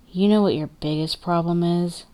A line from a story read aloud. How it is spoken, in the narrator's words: Clay says, his voice steady